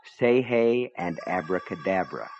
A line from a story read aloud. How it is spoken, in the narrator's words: Gaunt said softly